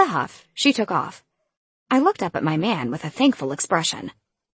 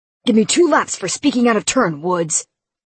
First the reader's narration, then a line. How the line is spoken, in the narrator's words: he growled